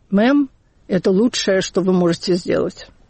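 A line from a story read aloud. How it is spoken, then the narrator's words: Tired. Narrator (Russian): оператор сказал устало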